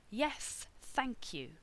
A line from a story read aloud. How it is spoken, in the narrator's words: he sneered